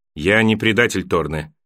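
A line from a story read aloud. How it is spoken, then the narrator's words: Cold reply. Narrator (Russian): холодно ответил на это Джон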